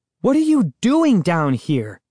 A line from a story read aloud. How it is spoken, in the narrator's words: Sari cried impatiently, as if scolding a child